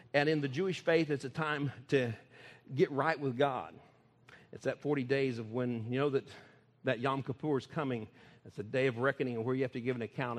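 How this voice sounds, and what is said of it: Oklahoma and Texas accent. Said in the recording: “all the Okie accent and Texas uh, accent that I have”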